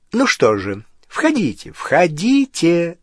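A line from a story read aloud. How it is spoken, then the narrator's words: Joyful exclaiming. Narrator (Russian): радостно произнесла миссис Уизли, то и дело восклицая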